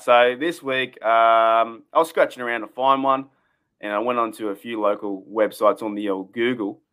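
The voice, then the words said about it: Broad Australian accent. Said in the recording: “why do I go to Australian accent like this? ... did I just turn full Bogan?”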